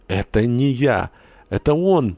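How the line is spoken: Exclaiming while collapsing faint. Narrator (Russian): воскликнула, падая без чувств на пол

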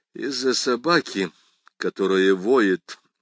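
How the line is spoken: Tired. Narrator (Russian): устало сказал заместитель окружного прокурора

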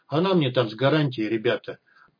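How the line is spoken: Flat bored young woman. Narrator (Russian): ровно, скучающим тоном проговорила девушка

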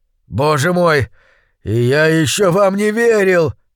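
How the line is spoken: Moaning. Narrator (Russian): простонал он

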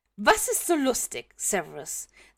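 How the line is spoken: Hissed. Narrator (German): zischt Minerva

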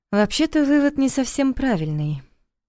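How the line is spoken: Quiet interruption. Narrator (Russian): тихо перебила Лиля

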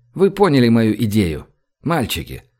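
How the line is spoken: Gentle young man's question. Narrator (Russian): спросил ласково молодой человек

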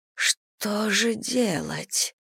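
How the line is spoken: Barely audible moan. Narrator (Russian): простонала она едва слышно

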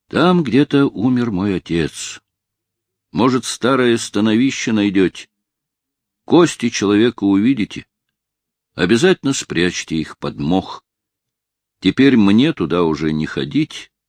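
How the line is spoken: Sad. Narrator (Russian): добавляет он грустно

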